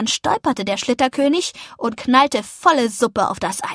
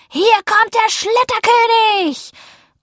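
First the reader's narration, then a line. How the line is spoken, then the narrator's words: Shouted. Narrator (German): rief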